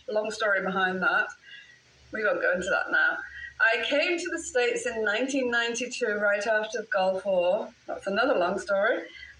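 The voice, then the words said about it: British English accent. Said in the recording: “as you can hear from my accent, I'm a Brit... Wales originally, but I don't sound very Welsh. I sound more English than Welsh.”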